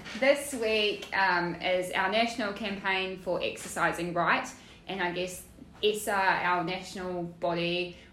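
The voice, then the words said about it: Strong New Zealand accent. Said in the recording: “I'm a Kiwi ... with the strongest accent”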